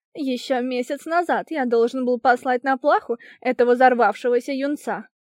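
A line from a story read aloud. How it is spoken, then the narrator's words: Yelling prince. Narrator (Russian): орал принц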